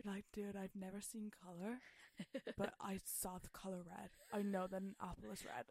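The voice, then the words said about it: Put-on American stoner accent. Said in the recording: “That's a very good accent.”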